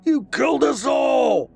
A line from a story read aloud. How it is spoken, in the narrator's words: Max screamed back